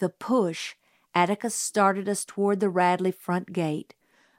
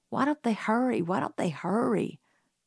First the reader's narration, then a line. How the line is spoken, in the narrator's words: muttered Jim